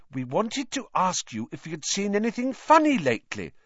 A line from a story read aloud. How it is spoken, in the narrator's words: said Hermione quickly